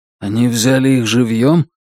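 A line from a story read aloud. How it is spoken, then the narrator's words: Weary, dejected sigh. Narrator (Russian): Утес устало и подавленно вздохнул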